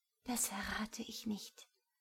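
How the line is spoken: Quiet reply. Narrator (German): erwiderte sie leise

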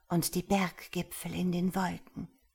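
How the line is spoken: Whispering. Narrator (German): flüsterte sie

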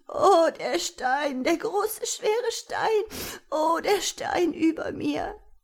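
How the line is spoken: Small one whimpering. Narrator (German): das Wimmern des Kleinen

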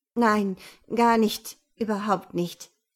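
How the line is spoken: Stammering. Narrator (German): stammelte

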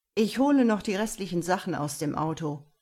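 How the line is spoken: Father calling out. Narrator (German): rief Mias Vater

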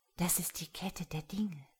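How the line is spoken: Soft voice. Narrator (German): sagte eine leise Stimme

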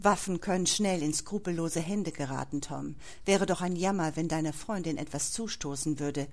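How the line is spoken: Dry threat, grey-haired man. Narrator (German): drohte der Grauhaarige trocken

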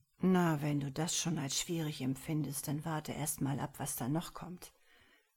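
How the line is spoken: Quiet murmur into cup. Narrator (German): murmelte Ellen leise in seine Tasse

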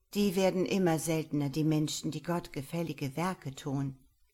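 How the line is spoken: Plain. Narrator (German): sagte meine Mutter

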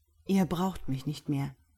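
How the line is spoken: Plain. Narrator (German): sagte Sebastian

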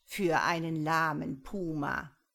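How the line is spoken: Mocking bird reply. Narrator (German): antwortete der Quetzal spöttisch

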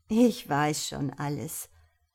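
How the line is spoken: Friendly laugh, old woman. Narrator (German): die Alte lachte freundlich und sagte

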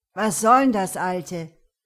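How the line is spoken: Raised voice. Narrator (German): Der Gothic wurde jetzt laut

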